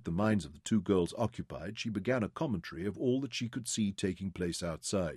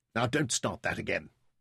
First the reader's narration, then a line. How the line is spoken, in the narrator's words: Sarah snapped